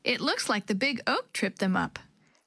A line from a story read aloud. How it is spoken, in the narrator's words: Chris laughed